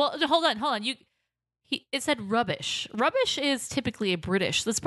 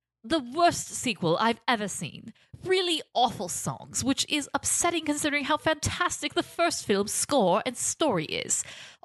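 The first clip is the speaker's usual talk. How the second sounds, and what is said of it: Put-on British accent. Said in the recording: “You need to read it in a British accent”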